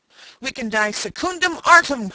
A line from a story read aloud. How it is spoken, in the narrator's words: cried the trooper